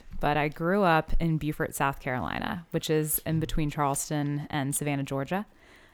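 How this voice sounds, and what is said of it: Mid-Atlantic American accent. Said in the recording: “I've been told I have a mid-Atlantic accent”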